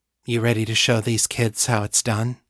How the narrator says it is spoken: she purred

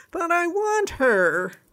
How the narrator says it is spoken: cried the prince

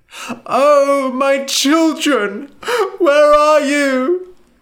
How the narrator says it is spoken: she cried

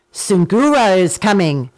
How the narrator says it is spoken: he called out

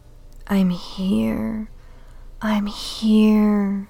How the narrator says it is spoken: said huskily, veins filling with fire at being so close to her at last

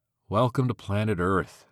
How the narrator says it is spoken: Cassie sighed

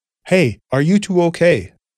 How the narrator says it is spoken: a voice called out

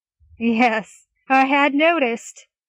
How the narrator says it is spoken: Gaius chuckled

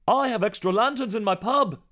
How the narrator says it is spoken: shouted James

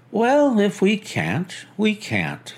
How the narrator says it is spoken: said Holmes cheerfully

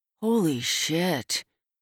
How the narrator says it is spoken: hisses, and I see the flash of anger in his eyes

